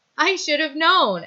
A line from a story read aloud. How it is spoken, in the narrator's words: Allison says, laughing